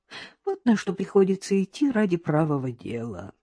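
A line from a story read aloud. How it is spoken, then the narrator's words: Heavy sigh. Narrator (Russian): тяжело вздохнула Надежда Николаевна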